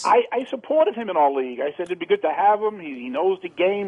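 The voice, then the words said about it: Strong New York accent. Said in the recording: “your shitty New York accent”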